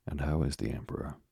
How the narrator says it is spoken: He asked earnestly

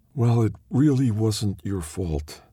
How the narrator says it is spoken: Angelica sighs

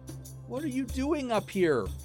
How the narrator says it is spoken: She cried

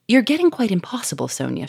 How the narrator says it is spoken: she cried

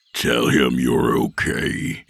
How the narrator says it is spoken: he growled

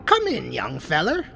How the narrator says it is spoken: a voice cackled from inside somewhere

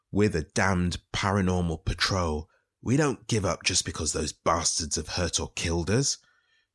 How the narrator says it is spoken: rasped Fortgan's ghost

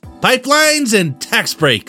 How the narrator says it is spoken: Zim yelled

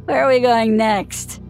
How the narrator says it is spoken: He slurred

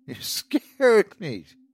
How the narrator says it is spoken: she laughed

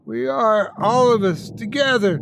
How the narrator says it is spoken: they all screamed out to me

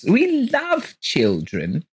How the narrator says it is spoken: cried Mrs

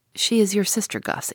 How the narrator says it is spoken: answered Richard

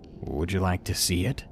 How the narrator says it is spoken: He said it so calmly, as if he was trying to be seductive

